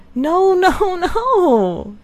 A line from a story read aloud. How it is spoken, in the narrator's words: cried Marianne wildly